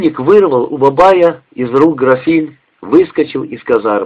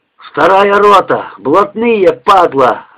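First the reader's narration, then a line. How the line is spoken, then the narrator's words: Growling. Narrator (Russian): рычал он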